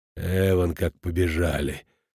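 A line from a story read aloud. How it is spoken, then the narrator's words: Muttering under breath. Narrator (Russian): проворчал он себе под нос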